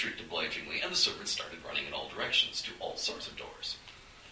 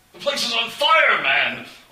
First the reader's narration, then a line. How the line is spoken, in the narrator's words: Onstag bellowed, not slowing the slightest